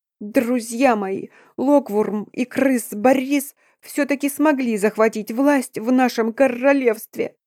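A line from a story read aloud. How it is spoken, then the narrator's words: Sobbing. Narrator (Russian): Всхлипывая, начал Корнил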